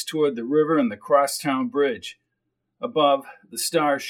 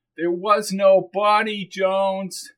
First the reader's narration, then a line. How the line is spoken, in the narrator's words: he shouted